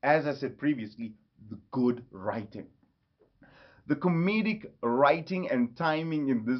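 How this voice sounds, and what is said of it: Usual voice. Nothing is said of it.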